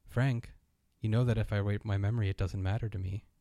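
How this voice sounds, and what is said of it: Impression of Peter Sarsgaard's robot voice. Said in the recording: “in its Peter Sarsgaard voice ... That's not a bad impression.”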